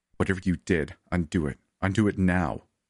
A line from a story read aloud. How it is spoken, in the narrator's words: I growled